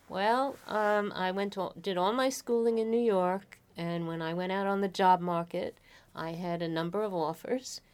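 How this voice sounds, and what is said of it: Bronx New York accent. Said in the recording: “I'm from the Bronx, New York. ... Can you tell from my accent? ... Absolutely.”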